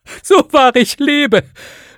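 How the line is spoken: Called out. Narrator (German): rief Scrooges Neffe

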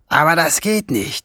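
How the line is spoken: Groaned. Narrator (German): Schwefelfell stöhnte

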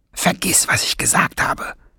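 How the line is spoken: Hissed. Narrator (German): zischte Schwefelfell

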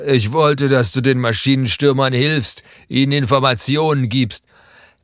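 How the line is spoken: Father calling out. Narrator (German): ruft Martins Vater

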